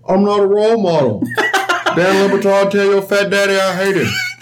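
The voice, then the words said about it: Imitates another person's voice. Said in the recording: “It's a good fucking impression of Charles Barkley.”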